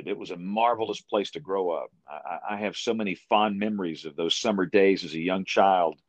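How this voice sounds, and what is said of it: Deep South Alabama accent. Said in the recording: “my accent, my culture, everything about me, I'm from deep South Alabama”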